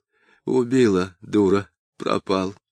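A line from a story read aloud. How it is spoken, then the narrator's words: Clear, sad. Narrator (Russian): Он четко и грустно говорил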